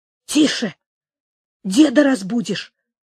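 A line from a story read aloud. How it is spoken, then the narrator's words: Angry mother's hushed scolding. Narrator (Russian): сердито сказала мать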